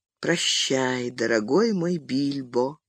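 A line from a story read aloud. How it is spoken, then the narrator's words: Quiet. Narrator (Russian): тихо проговорил он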